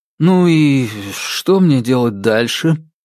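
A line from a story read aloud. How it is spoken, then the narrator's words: Gloomy question. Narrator (Russian): мрачно поинтересовался он у пространства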